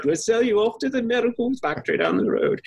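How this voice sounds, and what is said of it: Put-on British accent. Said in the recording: “that's my British accent”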